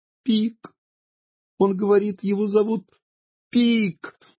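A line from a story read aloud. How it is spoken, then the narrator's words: Laughing. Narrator (Russian): засмеялась сестренка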